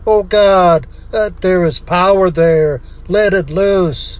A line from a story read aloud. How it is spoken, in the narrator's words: He began to sob, then cried